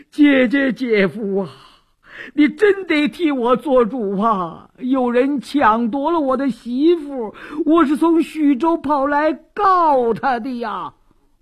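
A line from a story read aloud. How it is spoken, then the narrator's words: Loud uncontrollable wailing. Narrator (Chinese): 李四禁不住哇哇大哭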